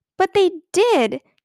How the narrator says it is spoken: cried Ramona, burning with fury

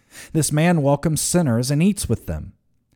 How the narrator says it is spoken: The Pharisees and legal experts were grumbling, saying

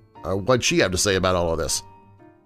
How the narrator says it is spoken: She chuckled softly to herself

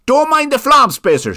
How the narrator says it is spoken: shouted Gravin from outside the window

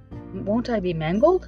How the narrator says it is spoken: asked the Scarecrow

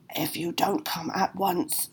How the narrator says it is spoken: snarled the dark spectre

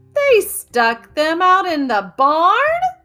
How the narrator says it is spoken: Imogen yelped

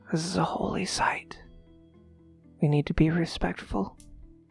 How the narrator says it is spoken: you hear him whispering

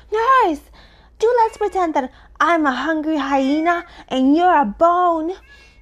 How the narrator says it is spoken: shouting suddenly in her ear

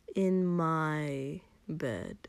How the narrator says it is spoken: Kotsky drawled, half teasing, half reassuring

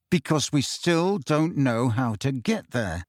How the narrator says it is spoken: said Harry through gritted teeth

